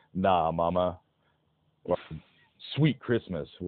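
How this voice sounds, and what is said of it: Bad impression of a deep, big man's voice. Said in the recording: “worst Luke Cage impression ... trying to do the giant, muscular black man voice”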